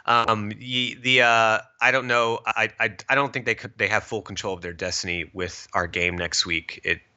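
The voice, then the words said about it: Stuffy, congested voice. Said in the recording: “I have had allergies today ... stuffy nose ... I'm dealing with some allergies”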